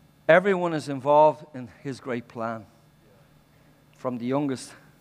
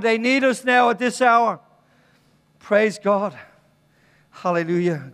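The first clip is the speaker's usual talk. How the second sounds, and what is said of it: Shouting. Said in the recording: “Stop shouting.”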